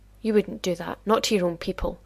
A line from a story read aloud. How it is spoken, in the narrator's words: He said through gritted teeth